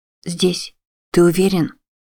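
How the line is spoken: Whisper. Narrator (Russian): Она могла только шептать

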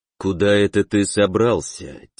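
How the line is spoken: Quiet, insinuating. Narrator (Russian): тихо, но вкрадчиво проговорил

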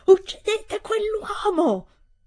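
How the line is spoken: Repeated frantic shouting. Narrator (Italian): Ha gridato ripetutamente, come una pazza

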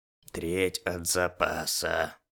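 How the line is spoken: Displeased grunt. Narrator (Russian): недовольно буркнул огнеупорный

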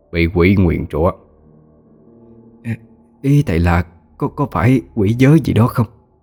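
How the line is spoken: Stammering guess. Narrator (Vietnamese): bà Liên lắp bắp đoán định

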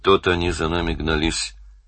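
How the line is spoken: Flat, lifeless voice. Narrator (Russian): мертвым голосом сказал Данил

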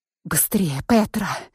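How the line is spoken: Whisper. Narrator (Russian): прошептала я

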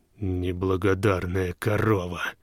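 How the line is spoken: Menacing hiss. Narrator (Russian): угрожающе прошипел Зеякамп

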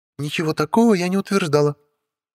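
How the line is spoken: Cheerful objection. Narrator (Russian): бодро возразила мне Стелла

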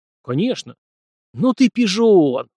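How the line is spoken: Admiring exclamation. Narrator (Russian): восхищенно воскликнул Ким

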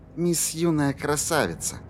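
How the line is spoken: Barely audible mutter. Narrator (Russian): едва слышно пробормотала Корделия

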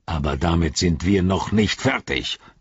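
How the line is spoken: Growled. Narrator (German): knurrte er Pippin an

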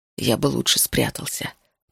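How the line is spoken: Muttering. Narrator (Russian): пробормотал

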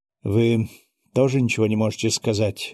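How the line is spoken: Sighing. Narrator (Russian): вздохнул наследник престола

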